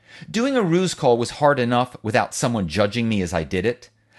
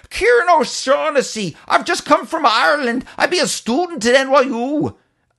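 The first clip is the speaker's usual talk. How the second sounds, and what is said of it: Exaggerated, poor put-on Irish accent. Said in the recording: “making a feeble attempt at an Irish accent, which was far worse than Deirdre's ... I went further with the accent, channeling the leprechaun in the Lucky Charms commercials.”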